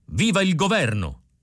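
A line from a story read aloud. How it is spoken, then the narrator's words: Eager shout. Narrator (Italian): gridò Uliva col massimo di buona volontà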